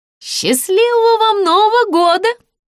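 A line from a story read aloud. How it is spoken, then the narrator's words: Shouted after someone. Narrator (Russian): крикнула ему вдогонку кассирша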